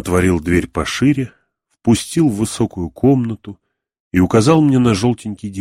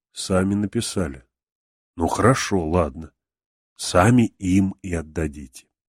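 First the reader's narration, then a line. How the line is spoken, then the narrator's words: Said very tenderly. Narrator (Russian): сказал совсем ласково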